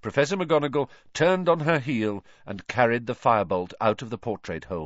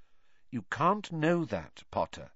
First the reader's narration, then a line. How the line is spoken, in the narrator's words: said Professor McGonagall quite kindly